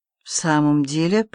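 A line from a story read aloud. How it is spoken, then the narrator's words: Muttering. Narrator (Russian): пробормотал Алексей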